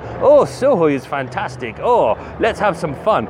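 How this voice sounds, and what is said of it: Put-on Russian accent. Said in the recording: “That's my Russian accent.”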